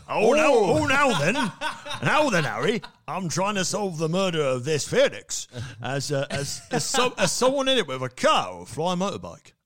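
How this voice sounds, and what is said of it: Poor Hagrid impression, wandering accent. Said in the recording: “I don't know what my accent's gone ... Definitely not Hagrid.”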